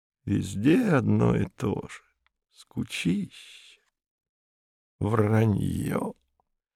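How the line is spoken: Muttering. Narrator (Russian): Брюн бормоча

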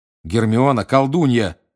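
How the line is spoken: Snapping retort. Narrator (Russian): огрызнулся Гарри

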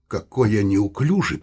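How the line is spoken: Muttered. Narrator (Russian): пробормотал Саул

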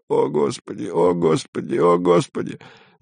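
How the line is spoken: Monotonous nearby moaning. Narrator (Russian): Кто-то однообразно стонал совсем рядом, приговаривая

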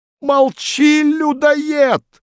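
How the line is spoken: Shrill squeal. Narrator (Russian): взвизгнул говорун

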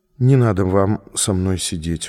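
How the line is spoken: Tired. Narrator (Russian): устало сказала она

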